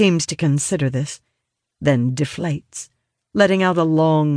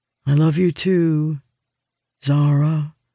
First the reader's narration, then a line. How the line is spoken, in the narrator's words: he trails off, his tone growing resigned